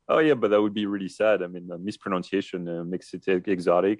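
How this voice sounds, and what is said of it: French accent. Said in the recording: “my French accent”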